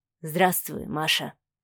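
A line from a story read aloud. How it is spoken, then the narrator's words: Quiet. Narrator (Russian): тихо произнес Савелий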